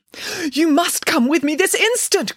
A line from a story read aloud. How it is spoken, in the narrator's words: cried Nanny Piggins